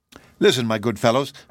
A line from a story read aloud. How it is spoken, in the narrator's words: cried the king